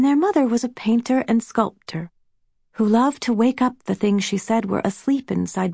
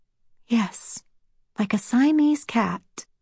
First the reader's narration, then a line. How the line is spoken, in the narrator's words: Rose continued softly